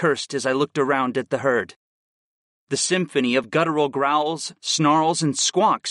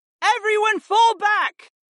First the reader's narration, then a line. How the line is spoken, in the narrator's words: A feminine voice suddenly cried out